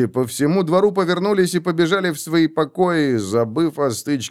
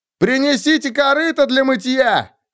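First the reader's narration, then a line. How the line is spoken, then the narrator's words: Shouted. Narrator (Russian): крикнул кто-то из стрелков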